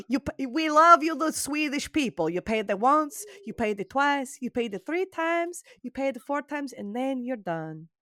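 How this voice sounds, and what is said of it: Poor put-on Swedish accent. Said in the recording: “That's a terrible Swedish accent.”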